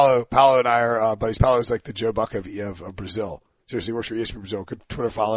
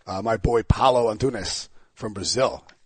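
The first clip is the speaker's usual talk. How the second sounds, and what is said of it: Put-on Brazilian accent on a name. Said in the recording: “Nice accent I got there.”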